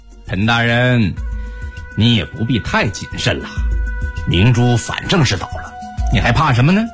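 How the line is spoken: Light laugh. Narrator (Chinese): 高世奇笑笑说

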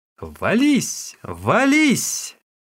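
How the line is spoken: Shouting. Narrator (Russian): хозяйка, хлопая в ладоши, закричала

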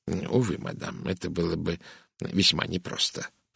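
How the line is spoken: Muttering. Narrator (Russian): пробормотал бельгиец

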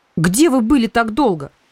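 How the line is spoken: Indignant. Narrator (Russian): Алена Мстиславична встретила меня возмущенно

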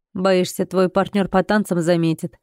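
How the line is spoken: Snorting smirk. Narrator (Russian): Хмыкнул он

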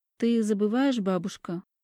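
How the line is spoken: Dry reply. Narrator (Russian): сухо отвечаю я

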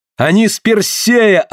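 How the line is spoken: Yelling. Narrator (Russian): орал я

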